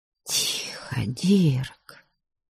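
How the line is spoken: Whisper. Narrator (Russian): прошептала

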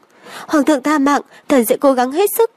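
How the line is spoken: Frightened old physician. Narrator (Vietnamese): Lão thái y sợ hãi

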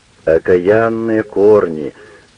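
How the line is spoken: Loud swearing. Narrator (Russian): ругается что-то слишком громко

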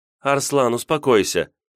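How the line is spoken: Exaggeratedly gentle tone. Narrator (Russian): Вика заговорила преувеличенно ласковым тоном, несколько похожим на тот, которым я обратился к нему ранее

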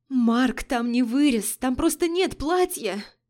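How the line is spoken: Whimper. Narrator (Russian): Захныкала

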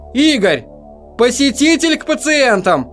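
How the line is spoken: Shouting. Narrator (Russian): Она крикнула

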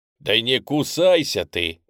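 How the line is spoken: Loud bark. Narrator (Russian): гаркнул Алекса

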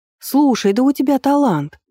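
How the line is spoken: Exclamation. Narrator (Russian): воскликнула Алира

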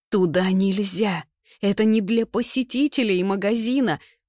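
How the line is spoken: Trembling voice. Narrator (Russian): Дрожащим голосом выдает

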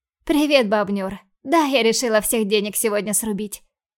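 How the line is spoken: Amused snort. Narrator (Russian): хмыкнула я

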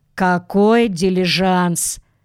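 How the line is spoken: Noisy sigh. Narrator (Russian): шумно вздохнул

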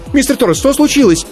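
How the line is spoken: Sudden interrupting cry. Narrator (Russian): скрикнула Аиша, перебивая обеспокоенный голос Владимира из динамика

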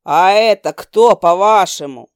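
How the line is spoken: Demon's bark. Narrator (Russian): Рявкнул демон

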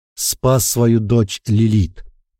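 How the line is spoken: Growled. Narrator (Russian): прорычал я

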